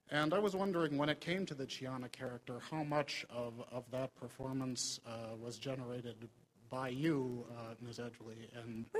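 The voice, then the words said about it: Minnesotan American accent. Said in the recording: “You've got a very nice accent. Where's this from? ... I am from Minnesota.”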